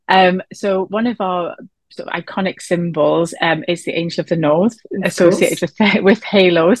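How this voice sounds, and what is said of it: Northeast English Newcastle accent. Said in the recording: “we're based in the northeast of England, as you might tell from my accent, from Newcastle”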